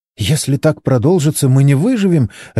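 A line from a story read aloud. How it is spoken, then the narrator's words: Babbling. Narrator (Russian): лепетала Моника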